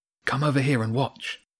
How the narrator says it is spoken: James whispered

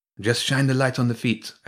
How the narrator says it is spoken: Elf said, her voice sounding strangely distant from behind the glass

